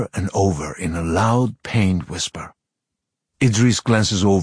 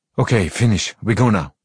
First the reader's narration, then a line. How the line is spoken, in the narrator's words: Amra says sharply